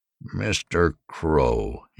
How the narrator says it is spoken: said icily

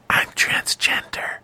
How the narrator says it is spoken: she whispered into Johnny's ear

